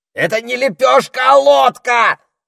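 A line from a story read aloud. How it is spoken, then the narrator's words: Parrot yelling. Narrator (Russian): заорал попугай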